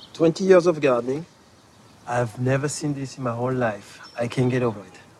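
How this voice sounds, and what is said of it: Strong French accent speaking English. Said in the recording (French): “cette voix avec un accent français qui n'a rien à envier à celui de Maurice Chevalier”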